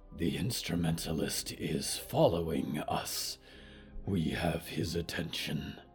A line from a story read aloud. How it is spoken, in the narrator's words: Diggory whispered